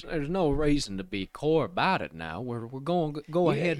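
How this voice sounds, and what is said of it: Southern drawl impression, not high-pitched. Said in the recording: “You're missing some of this little high-pitched action on Jerry ... You got a very nice the Southern twang type ... you're like more Southern drawl”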